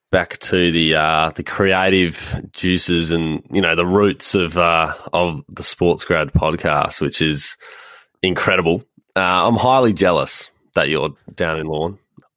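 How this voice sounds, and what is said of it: Husky voice from a cold. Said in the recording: “with a bit of a head cold, so you'd notice my voice is rather husky tonight”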